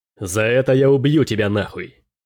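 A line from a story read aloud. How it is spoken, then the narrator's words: Roaring. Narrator (Russian): Взревел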